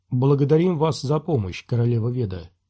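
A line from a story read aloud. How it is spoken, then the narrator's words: Quiet. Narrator (Russian): тихо произнес он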